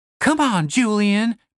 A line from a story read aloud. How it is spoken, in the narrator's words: pleaded Stacy